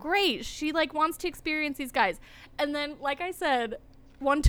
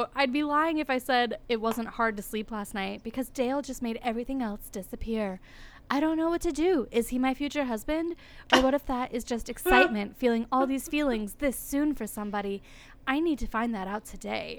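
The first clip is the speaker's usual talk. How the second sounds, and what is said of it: Imitates another person's voice. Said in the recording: “That voice you just did was actually pretty good.”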